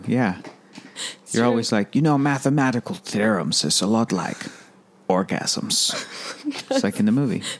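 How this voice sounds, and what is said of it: Imitates another person's voice. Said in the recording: “It's quite the accent.”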